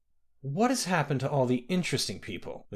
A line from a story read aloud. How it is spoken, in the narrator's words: the queen murmured